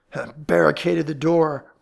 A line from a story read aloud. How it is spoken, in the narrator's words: growled Ellery